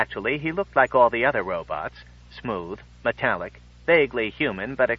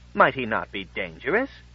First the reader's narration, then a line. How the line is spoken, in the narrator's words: said the friend, looking at Max nervously